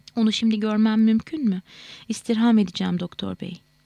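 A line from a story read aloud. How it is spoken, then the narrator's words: Excited voice. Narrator (Turkish): Heyecanlı bir sesle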